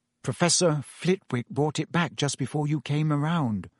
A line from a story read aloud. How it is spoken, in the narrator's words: said Hermione in a very small voice